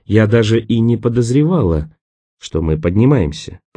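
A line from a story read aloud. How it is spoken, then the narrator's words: Whispered. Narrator (Russian): прошептала она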